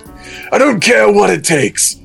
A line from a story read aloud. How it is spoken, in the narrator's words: Vegeta said hotly